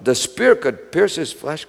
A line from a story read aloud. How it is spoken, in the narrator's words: cried Melchior